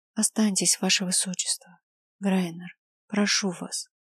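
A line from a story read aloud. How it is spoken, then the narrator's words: Very quiet, disbelieving. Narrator (Russian): Ева очень тихо, сама не веря в происходящее, произнесла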